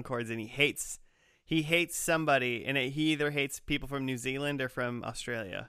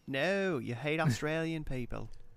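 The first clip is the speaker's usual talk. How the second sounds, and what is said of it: Put-on New Zealand accent. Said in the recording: “That's my New Zealand accent. ... That's pretty good. ... Pretty spot on.”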